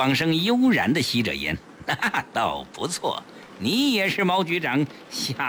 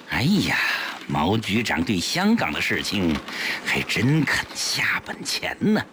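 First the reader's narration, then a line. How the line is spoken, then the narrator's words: Meaningful sigh. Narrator (Chinese): 江世飞暗含深意地叹道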